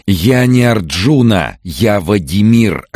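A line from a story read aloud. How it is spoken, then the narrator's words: Desperate shout. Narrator (Russian): отчаянно крикнул он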